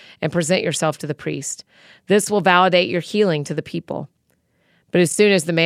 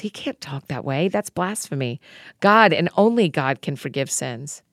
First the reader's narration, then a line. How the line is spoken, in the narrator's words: Some religion scholars sitting there started whispering among themselves